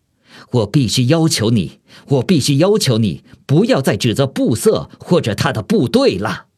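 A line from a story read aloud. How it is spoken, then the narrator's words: Furious bellowing. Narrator (Chinese): 古德里安脸色发红，扯着嗓门咆哮道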